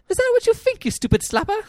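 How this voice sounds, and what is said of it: Put-on Cockney accent. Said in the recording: “my impression of her Cockney accent ... That was good. That was good.”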